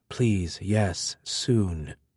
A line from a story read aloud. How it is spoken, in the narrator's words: Rati muttered